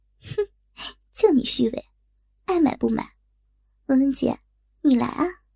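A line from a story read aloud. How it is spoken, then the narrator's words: Giggling. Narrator (Chinese): 小丽咯咯地笑了笑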